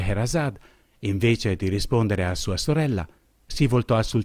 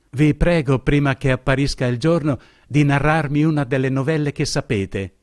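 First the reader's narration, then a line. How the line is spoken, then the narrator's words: Exclaimed. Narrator (Italian): esclamò essa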